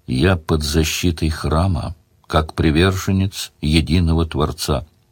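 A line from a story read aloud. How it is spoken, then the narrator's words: Quiet reminder. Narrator (Russian): тихо напомнил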